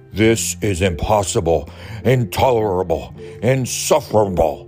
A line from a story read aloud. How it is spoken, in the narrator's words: cried Bear, shaking with anger and disbelief